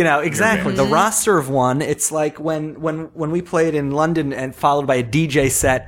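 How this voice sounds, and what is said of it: Usual voice. Nothing is said of it.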